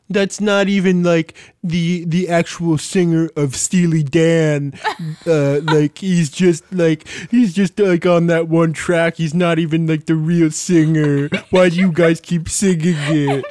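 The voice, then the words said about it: Imitates another person's voice, Muppet-like. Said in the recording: “That's my impression of my dad... I've never heard your voice like that before. You sounded just like that one Muppet... the one who's in the band, the one who's in Electric Mayhem, and he has his eyes closed”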